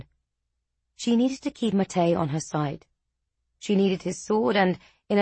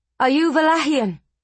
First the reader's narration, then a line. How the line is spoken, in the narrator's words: she called out in her native tongue